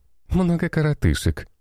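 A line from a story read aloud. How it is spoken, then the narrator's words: Laughing. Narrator (Russian): рассмеялась Белла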